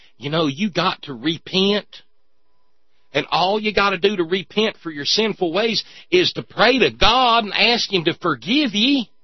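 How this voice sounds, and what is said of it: Exaggerated hillbilly Southern accent. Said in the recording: “I'm probably hillbillying up the bus driver a little too much. It's a different accent down there.”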